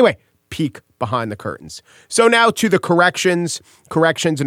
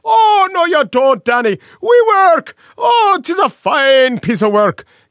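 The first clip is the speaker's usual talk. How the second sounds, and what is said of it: Comically bad Irish accent. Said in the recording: “the Irish accent... it's not a good Irish accent, but it sounds like a comically bad Irish accent”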